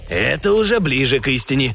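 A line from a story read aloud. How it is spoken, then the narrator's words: Grumble. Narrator (Russian): проворчал Модули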